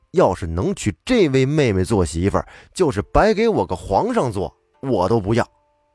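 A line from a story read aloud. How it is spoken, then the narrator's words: Excited shout. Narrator (Chinese): 耿去病情不自禁的大吼一声说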